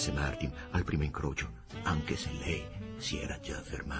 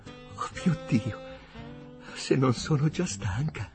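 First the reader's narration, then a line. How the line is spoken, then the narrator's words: Panting. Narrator (Italian): ansimò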